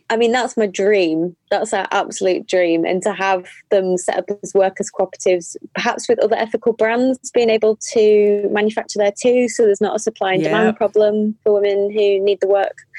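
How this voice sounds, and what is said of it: Mixed Northern English accent. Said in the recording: “my accent's all over the place all the time. I was born in Yorkshire and then moved to the Northeast, North Tyneside ... I've lived in Manchester and Bristol ... the accent comes out”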